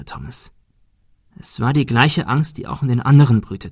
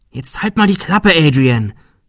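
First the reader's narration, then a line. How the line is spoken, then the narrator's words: Quiet hiss. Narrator (German): fauchte Shirley leise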